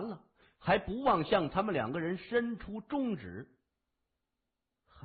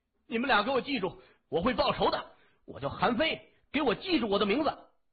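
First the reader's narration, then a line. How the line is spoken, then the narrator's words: Pleading through gritted teeth. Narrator (Chinese): 那个人边求饶边看向谢文东和东新雷，咬牙切齿的说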